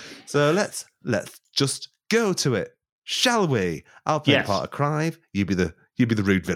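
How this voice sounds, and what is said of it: Usual voice. Nothing is said of it.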